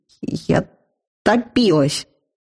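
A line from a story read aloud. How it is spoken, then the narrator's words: Strained, triumphant, teeth chattering. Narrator (Russian): Выдавил я, триумфально лязгая зубами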